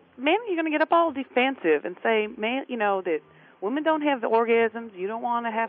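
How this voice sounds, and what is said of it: Southern US accent. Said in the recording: “So you're a Southern Belle. ... I just have a Southern accent because I grew up there.”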